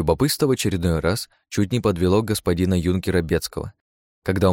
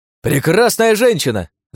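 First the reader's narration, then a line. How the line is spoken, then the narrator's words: Yelled. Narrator (Russian): завопил Богдан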